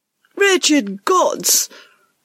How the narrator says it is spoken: Ruskin shrieked at Peter, a young valet

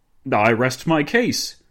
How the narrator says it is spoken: Dinglebrush exclaimed

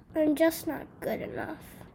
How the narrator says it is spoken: mumbled

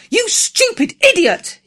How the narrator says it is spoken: he cried

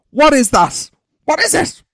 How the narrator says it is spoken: She screamed at us

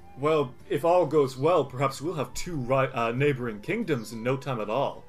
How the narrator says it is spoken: Sildare chuckles and says

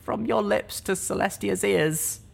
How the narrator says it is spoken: I whimpered

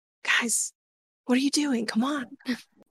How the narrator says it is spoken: I kind of whisper a little loudly

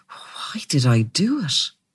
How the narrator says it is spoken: He murmured

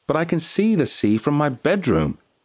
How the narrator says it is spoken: exclaimed Matty

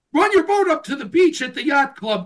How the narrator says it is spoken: Jason sputtered

